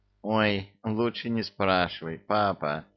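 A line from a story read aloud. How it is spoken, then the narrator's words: Groaning. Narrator (Russian): простонал Чебурашка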